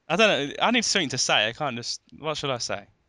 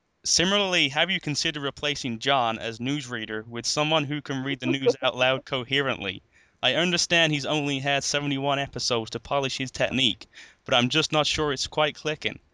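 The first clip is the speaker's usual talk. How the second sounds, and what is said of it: Put-on American Southern accent, robotic. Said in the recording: “American accent ... You sound like a southern robot.”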